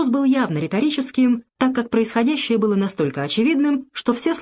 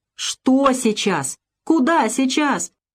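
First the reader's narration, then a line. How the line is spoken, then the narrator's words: Breathless furious shout. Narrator (Russian): задыхаясь от гнева, снова прокричал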